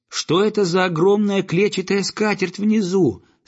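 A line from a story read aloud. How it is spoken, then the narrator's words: Loud question. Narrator (Russian): спросил он громко, хотя и не ожидал ответа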